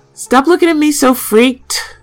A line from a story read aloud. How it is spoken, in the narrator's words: I yell at him